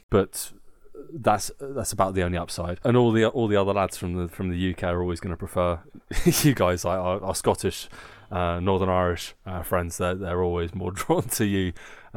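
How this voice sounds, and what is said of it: Southern English accent. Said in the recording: “oh, you're a southerner, because I sound like one”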